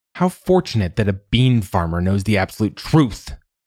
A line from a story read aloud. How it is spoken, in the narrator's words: she snapped